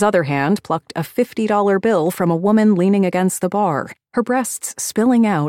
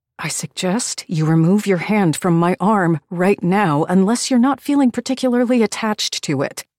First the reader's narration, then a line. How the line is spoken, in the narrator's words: I hissed out through gritted teeth, my blood boiling over